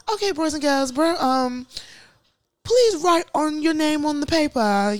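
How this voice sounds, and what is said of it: Put-on British accent. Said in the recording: “I'll just bust out in a British accent.”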